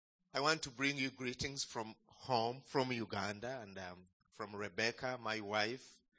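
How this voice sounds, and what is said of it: Foreign-accented English. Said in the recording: “are you ready for my accent?”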